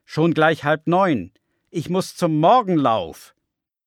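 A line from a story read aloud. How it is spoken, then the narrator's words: Called out. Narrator (German): ruft er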